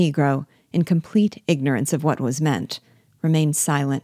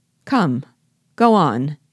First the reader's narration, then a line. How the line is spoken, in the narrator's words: exclaimed Biasu, impatiently